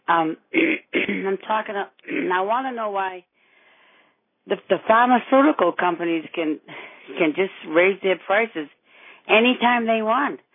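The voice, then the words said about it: Hoarse, laryngitic voice. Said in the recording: “I have a little laryngitis”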